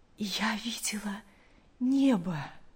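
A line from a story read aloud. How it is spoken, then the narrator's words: Weak but joyful voice. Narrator (Russian): А мать, желая передать каждому частичку своего счастья, слабым голосом, но с огромной радостью сказала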